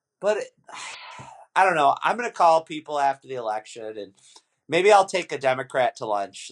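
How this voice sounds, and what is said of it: Hoarse, strained voice. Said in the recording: “You making fun of me because I'm sick? ... I can only talk for a half hour because I'm losing my voice.”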